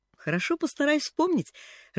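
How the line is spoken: Laughing. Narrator (Russian): рассмеялась Поллианна

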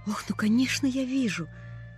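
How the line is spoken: Breathless exclamation. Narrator (Russian): выдохнула Полиана

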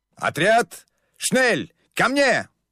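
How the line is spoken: Shouting. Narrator (Russian): закричал Фриц

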